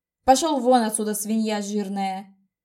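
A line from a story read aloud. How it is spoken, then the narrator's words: Growled through clenched teeth. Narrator (Russian): прорычал он сквозь стиснутые зубы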